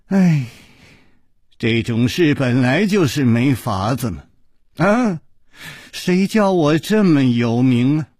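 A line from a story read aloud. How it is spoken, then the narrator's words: Deliberate sigh. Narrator (Chinese): 陆小凤故意叹了一口气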